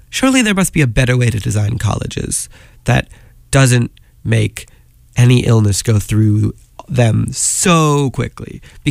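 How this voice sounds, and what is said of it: Sick-sounding voice. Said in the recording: “as you can probably tell from my voice, I've been a little sick.”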